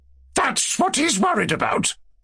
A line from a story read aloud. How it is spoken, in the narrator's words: cried Lizaveta Prokofievna